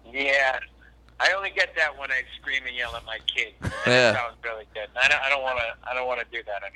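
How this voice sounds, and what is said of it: Nasally Boston accent. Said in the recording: “a nice nasally Bostonian accent”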